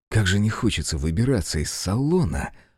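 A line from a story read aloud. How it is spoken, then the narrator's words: Muttering. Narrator (Russian): пробормотал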